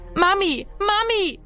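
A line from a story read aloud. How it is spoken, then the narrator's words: Echoing scream. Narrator (German): schrie er, dass seine Stimme im Haus widerhallte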